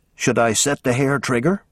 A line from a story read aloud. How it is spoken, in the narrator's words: Pendleton whispered to Hamilton